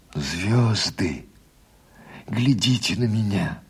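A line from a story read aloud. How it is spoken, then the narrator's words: Whispered. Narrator (Russian): прошептал Егор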